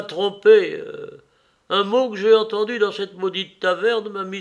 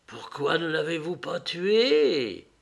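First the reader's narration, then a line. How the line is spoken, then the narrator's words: Hissing. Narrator (French): siffla-t-elle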